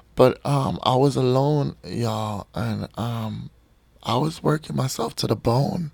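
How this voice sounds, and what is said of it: Strained, hoarse voice. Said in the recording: “am I losing my voice already?”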